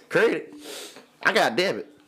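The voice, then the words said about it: Imitates another person's voice. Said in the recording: “Impersonation of Micah”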